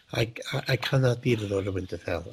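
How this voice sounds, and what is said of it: Detached character voice. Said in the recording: “I don't know why I'm trying to do this voice all of a sudden”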